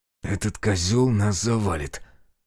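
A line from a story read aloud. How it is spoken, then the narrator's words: Heated hidden whisper. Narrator (Russian): горячо прошептал, укрывшись за углом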